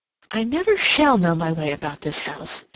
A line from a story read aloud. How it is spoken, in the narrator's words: she exclaimed